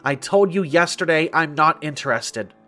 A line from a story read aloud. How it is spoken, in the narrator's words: she snapped